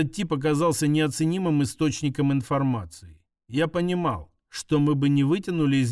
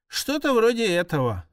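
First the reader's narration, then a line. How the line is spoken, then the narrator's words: Sigh. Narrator (Russian): вздохнул Вернон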